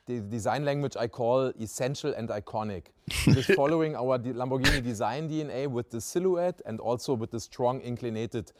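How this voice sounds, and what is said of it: German-accented English. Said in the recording (Danish): “har en tysk accent”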